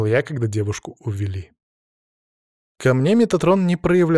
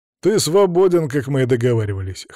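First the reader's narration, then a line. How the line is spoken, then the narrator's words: Snorting. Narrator (Russian): хмыкнул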